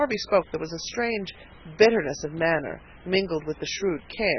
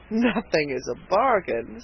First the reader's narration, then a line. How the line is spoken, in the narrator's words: said the purchaser with a chuckle